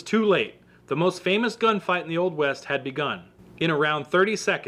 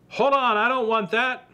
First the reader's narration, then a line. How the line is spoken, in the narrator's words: Virgil yelled